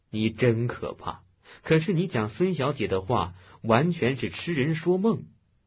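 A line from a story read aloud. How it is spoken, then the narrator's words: Laughing. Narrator (Chinese): 洪建笑道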